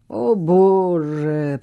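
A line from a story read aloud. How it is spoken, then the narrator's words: Groan. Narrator (Russian): простонал Хьюго, положив голову на руки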